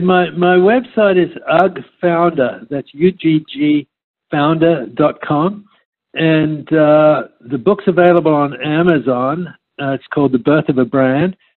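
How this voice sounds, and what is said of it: Non-American accent. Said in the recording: “a lot of people love the accent, you know? ... Americans, we're sucker for the accent”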